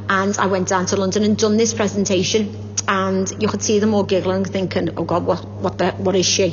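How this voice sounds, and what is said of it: Very broad Scouse accent. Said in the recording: “I've never changed my accent ... I've got the broadest Scouse accent that you can ever think of”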